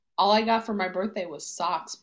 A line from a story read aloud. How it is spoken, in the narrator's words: Bruce grumbled